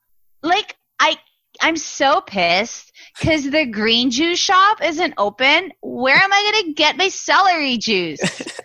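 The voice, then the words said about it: Put-on California girl voice. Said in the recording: “talking like a California girl”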